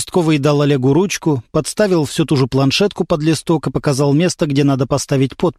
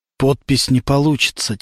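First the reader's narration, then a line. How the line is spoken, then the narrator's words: Quiet. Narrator (Russian): тихо сказал Олег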